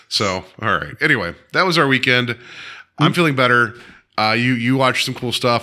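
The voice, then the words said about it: Raspy, gravelly voice. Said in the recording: “I still feel like I have a smoker's cough, even though I don't smoke ... that raspy, like I just ate a box of gravel laugh”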